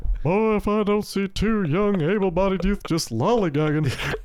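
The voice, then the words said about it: Imitates a cartoon character's voice. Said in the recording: “You can do the Hank Hill voice ... So good.”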